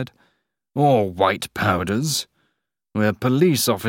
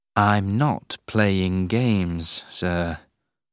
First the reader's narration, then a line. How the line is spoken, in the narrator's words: Harry said slowly and carefully